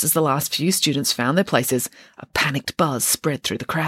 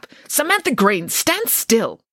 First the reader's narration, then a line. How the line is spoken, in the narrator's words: one of the teachers would angrily snap